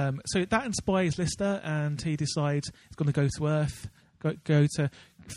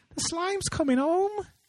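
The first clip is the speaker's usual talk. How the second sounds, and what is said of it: Imitates a TV character's voice. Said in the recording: “another really bad impression. ... Is that better? ... That's very good.”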